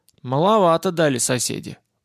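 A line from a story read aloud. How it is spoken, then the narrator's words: Grumbling. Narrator (Russian): проворчал армянин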